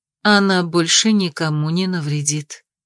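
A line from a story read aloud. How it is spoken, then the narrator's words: Plain. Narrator (Russian): ответила мама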